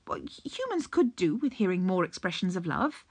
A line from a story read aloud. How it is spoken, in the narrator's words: Aziraphale said firmly